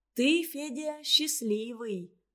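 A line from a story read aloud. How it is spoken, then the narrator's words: Sighing. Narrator (Russian): вздохнула Маша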